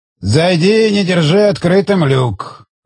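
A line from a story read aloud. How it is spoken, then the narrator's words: Grumbling. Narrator (Russian): проворчал Элиос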